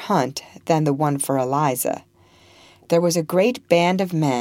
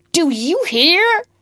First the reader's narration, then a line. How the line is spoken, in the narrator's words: shouted Legree